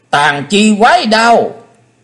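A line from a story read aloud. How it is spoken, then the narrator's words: Shrill shout from outside. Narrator (Vietnamese): Ngọc Diệm Diêm Bà đứng bên ngoài hét lên lanh lảnh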